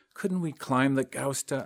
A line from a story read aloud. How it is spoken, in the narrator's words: ask softly